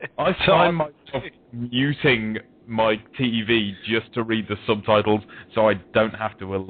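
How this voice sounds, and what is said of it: Usual voice. Nothing is said of it.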